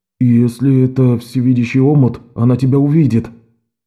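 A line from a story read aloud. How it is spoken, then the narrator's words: Hoarse loud whisper. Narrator (Russian): Рэндалл сказал хриплым громким шепотом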